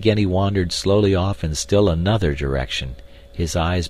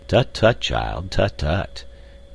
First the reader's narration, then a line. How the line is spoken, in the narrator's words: responded Professor Porter in a kindly and indulgent tone